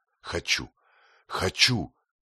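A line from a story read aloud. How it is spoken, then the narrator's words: Exclamation. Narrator (Russian): воскликнул он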